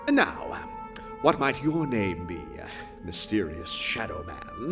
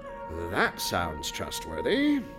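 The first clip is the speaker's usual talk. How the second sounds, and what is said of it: Sarcastic tone. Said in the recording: “That was sarcasm”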